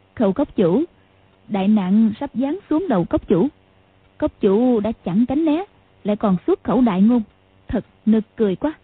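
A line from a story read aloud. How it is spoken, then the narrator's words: Smiling. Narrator (Vietnamese): Hoàng Dung mỉm cười nói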